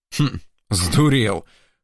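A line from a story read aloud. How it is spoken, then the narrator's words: Calmer approving grunt. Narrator (Russian): хмыкнул мичман уже спокойнее, вроде как с нотками одобрения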